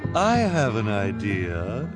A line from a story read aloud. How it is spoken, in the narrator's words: Esme said suddenly in a false, sweet voice